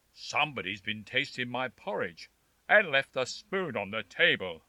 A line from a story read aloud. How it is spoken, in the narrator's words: growled the father bear in his great big voice